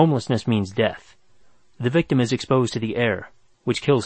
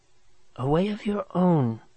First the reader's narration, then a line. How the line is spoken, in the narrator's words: she whispered